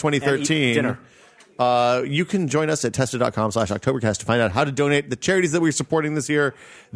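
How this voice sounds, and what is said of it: Deliberate radio announcer voice. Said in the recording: “I'm doing a radio voice because I'm tired and it's late.”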